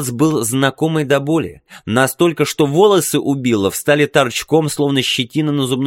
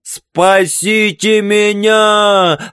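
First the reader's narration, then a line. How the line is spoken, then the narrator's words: Desperate shout. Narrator (Russian): закричал Билл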